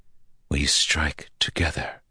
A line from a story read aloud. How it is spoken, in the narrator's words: Lanfear said softly